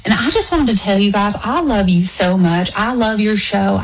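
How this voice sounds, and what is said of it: Put-on Southern US accent. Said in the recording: “that's not my real accent ... is this Georgia from Ginny in Georgia calling us right now? I'm impressed.”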